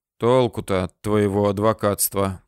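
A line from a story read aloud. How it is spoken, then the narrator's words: Grumbling. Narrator (Russian): пробурчал Василий Кондратьевич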